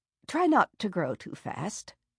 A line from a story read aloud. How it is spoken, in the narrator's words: she murmured